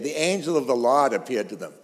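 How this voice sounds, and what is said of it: Exaggerated thick Boston accent. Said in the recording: “she's from Cambridge, and her accent is a lot harder than mine”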